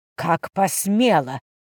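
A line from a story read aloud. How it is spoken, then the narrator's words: Barely audible breath. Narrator (Russian): выдохнула она на грани слышимости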